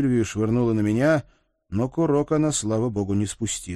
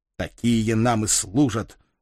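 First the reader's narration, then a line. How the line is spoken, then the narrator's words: Angry curt remark. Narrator (Russian): зло бросил Вик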